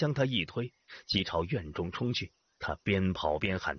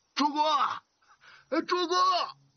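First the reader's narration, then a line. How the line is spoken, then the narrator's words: Shouting. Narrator (Chinese): 喊声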